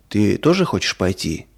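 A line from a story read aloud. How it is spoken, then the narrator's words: Plain. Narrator (Russian): спросил папа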